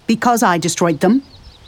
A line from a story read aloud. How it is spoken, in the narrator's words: he snapped